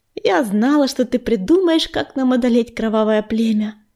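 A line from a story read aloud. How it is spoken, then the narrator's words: Affectionate purr. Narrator (Russian): ласково замурлыкала она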